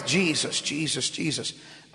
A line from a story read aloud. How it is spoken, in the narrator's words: She would just whisper under her breath